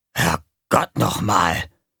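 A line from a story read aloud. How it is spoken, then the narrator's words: Murmur. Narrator (German): Gonko murmelte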